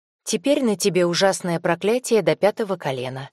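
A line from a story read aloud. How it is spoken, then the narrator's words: Flat even tone. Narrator (Russian): ровным тоном сообщила Полина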